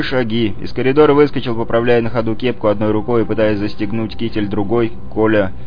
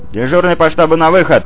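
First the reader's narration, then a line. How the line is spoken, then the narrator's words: Orderly shouting. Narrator (Russian): прокричал Дневальный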